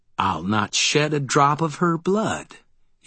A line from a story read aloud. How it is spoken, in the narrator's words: he replied smoothly